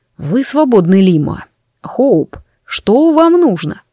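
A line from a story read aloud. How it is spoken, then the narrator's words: Said through gritted teeth. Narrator (Russian): процедил он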